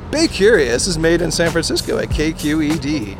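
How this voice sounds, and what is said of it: Silly put-on funny voice. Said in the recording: “Give me a funny voice.”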